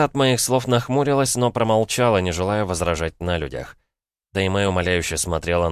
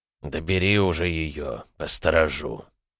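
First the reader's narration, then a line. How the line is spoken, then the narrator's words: Grumbling. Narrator (Russian): проворчал Раю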